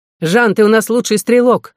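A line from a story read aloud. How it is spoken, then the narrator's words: Shouting. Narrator (Russian): закричал Делану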